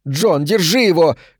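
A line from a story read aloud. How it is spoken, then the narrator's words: Shout. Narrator (Russian): крикнула Берг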